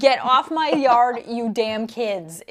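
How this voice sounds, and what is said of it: Yelling like a crazy lady. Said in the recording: “I'm just a crazy lady who's like ... is what I'm yelling.”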